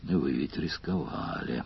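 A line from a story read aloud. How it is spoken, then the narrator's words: Grumbled. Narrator (Russian): проворчал Сварог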